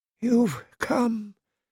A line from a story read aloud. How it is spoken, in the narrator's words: he whispered faintly, lips barely moving